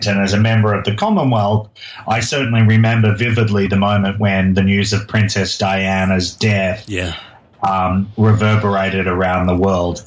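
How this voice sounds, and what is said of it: Australian accent. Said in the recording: “this is not an American accent. No. This is an Australian accent.”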